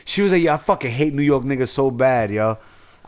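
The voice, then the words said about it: Bronx New York accent. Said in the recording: “You sound like you from the Bronx ... you got that Bronx accent”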